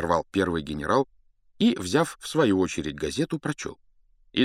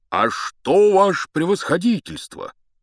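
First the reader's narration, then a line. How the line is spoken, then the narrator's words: Joyful speech. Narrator (Russian): сказал он радостно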